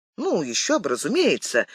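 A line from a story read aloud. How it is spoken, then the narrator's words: Exclaiming. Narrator (Russian): воскликнул Д'Артаньян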